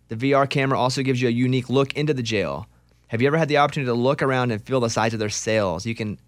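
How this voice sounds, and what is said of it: Strong accent, tired voice. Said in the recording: “getting tired, so my accent's really starting to just pour out of me.”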